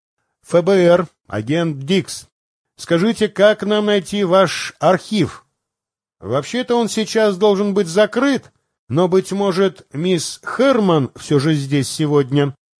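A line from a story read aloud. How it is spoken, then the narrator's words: Plain. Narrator (Russian): ответил охранник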